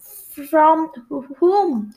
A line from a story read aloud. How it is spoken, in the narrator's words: I stammered